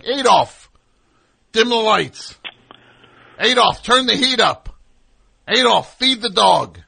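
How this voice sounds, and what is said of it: Barking, forceful commands. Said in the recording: “hear someone barking, like, "Adolf!" all night at a electronic device ... could do an impression”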